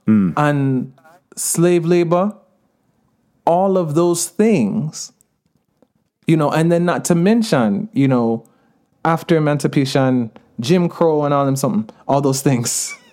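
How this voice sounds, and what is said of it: Jamaican accent, patois. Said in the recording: “I'm using more of my Jamaican accent lately, and you know, speaking patois”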